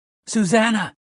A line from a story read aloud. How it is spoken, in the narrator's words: he shouted